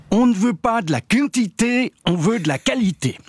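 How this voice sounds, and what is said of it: Imperfect put-on Vaud Swiss accent. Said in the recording (French): “je vais vous le faire en version originale ... je ne fais pas aussi bien l'accent vaudois que Vincent Cuchol ou Sandra Zimmerli ... la deuxième version, avec accent, a tendance à faire sourire”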